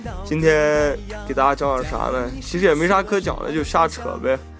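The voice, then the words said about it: Noticeable Xinjiang-accented Mandarin. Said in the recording (Chinese): “大家听我口音可以听出来，我口音还是比较明显的带着新疆口音的”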